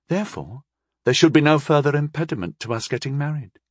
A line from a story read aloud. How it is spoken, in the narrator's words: she continued in a reasonable tone